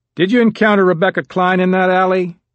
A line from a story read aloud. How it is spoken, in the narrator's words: George Andrews asked in a loud voice